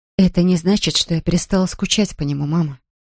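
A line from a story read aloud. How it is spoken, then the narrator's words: Quiet. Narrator (Russian): тихо произнесла она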